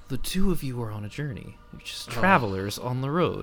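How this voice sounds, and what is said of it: Dungeon Master narrator voice. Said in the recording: “put on my Dungeon Master voice”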